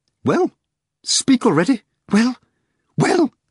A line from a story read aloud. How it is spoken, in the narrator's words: Rimsky said hoarsely